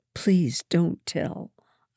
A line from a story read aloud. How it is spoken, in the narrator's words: I pleaded silently